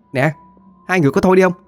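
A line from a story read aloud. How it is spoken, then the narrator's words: Annoyed woman shouting. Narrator (Vietnamese): Cô Tư bực mình la lên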